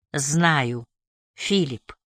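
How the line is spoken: Sad. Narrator (Russian): грустно проговорила

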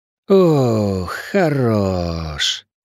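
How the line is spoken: Satisfied drawl. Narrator (Russian): довольно протянул проректор

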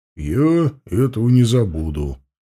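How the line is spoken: Solemn reply. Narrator (Russian): торжественно ответил Мохнач

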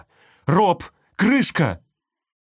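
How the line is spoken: Shouted. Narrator (Russian): закричала

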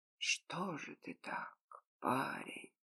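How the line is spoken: Whispered. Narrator (Russian): прошептал гость

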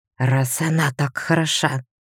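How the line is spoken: Angry whisper. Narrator (Russian): злым шепотом сказал

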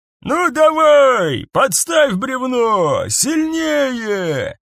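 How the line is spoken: Shouted commands. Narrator (Russian): кричал капрал, который принял командование над отрядом

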